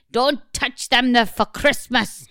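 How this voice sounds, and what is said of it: Attempted Irish accent sounding Scottish. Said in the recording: “That was Scottish, wasn't it? ... Why can't I do an Irish accent?”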